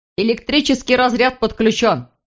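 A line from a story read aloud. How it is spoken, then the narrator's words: Shouted out. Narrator (Russian): выкрикнул кто-то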